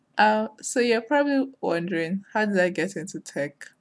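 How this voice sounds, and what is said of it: Speaks with an accent. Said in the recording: “make fun of my voice because of my accent”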